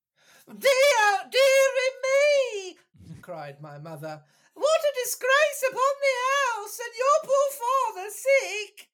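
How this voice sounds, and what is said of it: Falsetto woman's voice. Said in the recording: “falsetto time ... someone playing a woman, and no woman in the world sounds like that”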